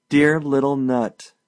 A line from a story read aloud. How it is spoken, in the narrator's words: cried